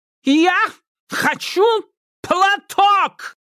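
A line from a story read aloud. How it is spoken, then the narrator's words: Loud yelling. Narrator (Russian): заорал человечишка, как будто костюмерша была глухой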